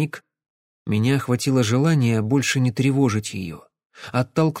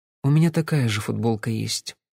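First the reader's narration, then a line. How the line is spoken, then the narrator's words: Quiet voice from behind. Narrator (Russian): тихо сказала у меня за спиной Кэсси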